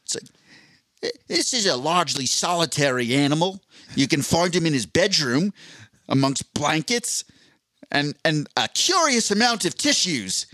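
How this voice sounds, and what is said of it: Put-on Australian accent. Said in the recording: “I don't think I can do the Australian accent for the whole time. I want to try, though.”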